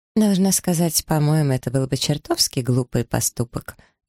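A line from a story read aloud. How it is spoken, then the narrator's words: Snide remark. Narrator (Russian): ехидно заметила Маргарет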